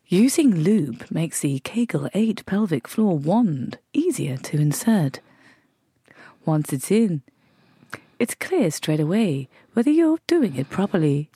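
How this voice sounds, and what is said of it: Robotic voiceover delivery. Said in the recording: “weird robot voice ... that's my voiceover voice”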